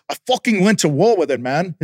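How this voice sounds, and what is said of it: Attempted Australian accent, mixed. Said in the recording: “Is that an Australian accent? I don't even know. ... I usually do like a mix between Australian, fucking Spanish and English or something”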